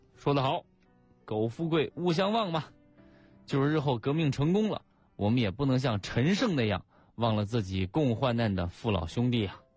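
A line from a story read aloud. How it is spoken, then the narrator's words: Admiring. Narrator (Chinese): 毛泽东赞叹说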